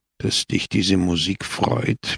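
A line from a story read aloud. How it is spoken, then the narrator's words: Murmur. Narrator (German): murmelte Don Camillo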